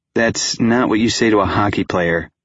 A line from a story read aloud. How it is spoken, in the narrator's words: I laughed